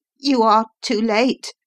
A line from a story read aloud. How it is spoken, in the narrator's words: I cried